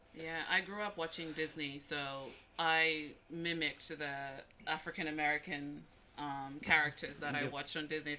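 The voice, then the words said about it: Mixed American-Australian accent. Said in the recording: “my accent sounds a little bit American, sounds a little bit Australian”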